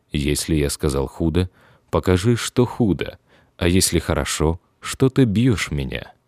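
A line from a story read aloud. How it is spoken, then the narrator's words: Calm reply. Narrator (Russian): Христос спокойно отвечал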